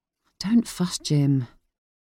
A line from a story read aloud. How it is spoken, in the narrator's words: The awful pain in her brain began to lift a little, and she muttered